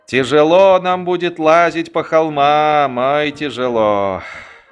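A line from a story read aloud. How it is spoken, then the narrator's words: Sighing. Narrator (Russian): вздохнул Батцер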